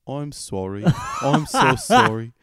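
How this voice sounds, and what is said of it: Put-on English accent. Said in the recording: “time to do my English voice.”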